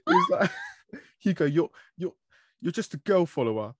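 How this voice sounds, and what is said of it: Imitates another person's muddled speech. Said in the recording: “He's all his words muddled as he does... that's a really good impression.”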